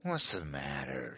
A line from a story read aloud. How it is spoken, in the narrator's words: she sneered